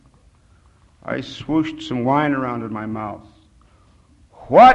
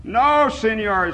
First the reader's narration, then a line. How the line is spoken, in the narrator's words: he shouted